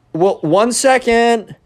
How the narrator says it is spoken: yells down

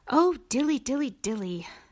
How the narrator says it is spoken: sighed Simpkin

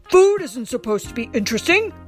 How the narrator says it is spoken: roared Papa

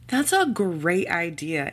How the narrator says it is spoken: Amber exclaimed

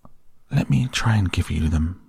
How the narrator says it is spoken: said the rat softly

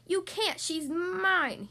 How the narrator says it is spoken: he roared

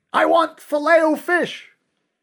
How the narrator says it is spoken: screaming

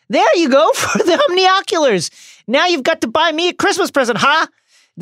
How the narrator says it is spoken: Ron yells

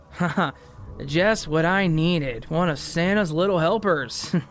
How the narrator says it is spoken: says with a little chuckle

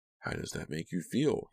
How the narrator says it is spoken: He asked quietly

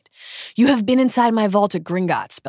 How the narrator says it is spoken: Bellatrix shrieks

